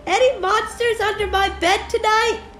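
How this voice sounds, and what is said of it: Squeaky high-pitched voice. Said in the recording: “your squeaky voice ... I meant your squeaky voice, not that squeaky voice”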